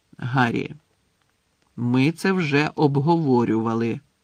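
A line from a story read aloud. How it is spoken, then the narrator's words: Stern reminder. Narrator (Ukrainian): нагадав Дамблдор, і цього разу голос його звучав суворо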